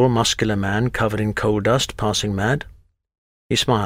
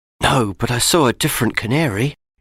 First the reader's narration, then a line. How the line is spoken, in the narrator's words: Matt whispered